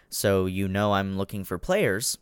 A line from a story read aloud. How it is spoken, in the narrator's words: Terrence says